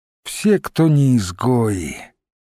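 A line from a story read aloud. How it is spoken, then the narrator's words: Sighed. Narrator (Russian): вздохнул Мамонт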